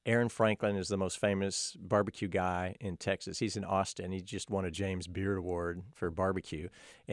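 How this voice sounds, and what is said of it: Slight Texan Southern twang. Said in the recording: “you might hear a little twang. Are you from Texas? ... I grew up in Dallas. ... My accent's gotten worse”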